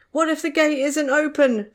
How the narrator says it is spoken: Tom cried

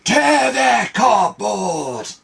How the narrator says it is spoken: screeched

